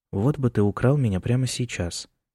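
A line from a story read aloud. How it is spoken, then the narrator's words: Wistful sigh. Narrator (Russian): вздохнул Джеймс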